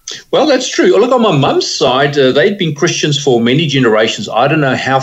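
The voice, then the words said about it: South African accent. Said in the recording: “you have that beautiful South African accent”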